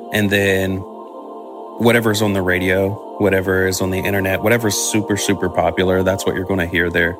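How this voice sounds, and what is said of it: Country West Virginia accent. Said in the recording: “I grew up in Charleston, West Virginia, super country there. ... you can hear by my accent ... you're super country”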